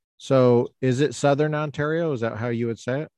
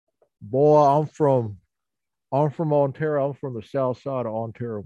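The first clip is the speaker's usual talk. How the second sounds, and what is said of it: Put-on Southern US accent. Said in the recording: “they have a Southern accent ... That's exactly what they sound ... You got it perfectly.”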